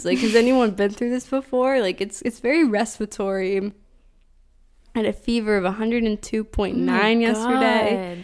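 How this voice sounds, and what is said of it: Weird-sounding sick voice. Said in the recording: “if my voice sounds weird, don't say anything ... She has a cough.”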